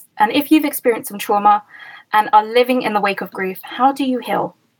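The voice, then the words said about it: Soothing accented radio-style voice. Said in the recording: “I love your accent? ... clearly you have a radio background. Your voice is so soothing.”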